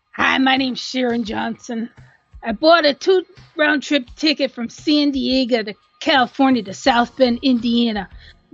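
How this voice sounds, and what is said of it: Put-on character voice. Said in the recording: “I'll try to do the Dolores voice.”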